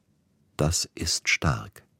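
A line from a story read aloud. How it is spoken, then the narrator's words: Quiet. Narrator (German): Schließlich sagte er leise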